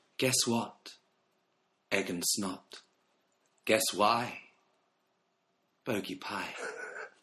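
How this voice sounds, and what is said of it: Grand poetry-reading voice. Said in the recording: “in my best poet voice”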